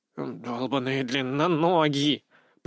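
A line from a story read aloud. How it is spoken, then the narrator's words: Hissed. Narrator (Russian): прошипел Фейри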